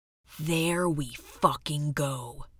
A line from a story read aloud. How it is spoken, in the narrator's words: whispered Blonde Steph